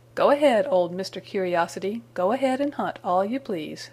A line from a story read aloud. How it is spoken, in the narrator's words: said he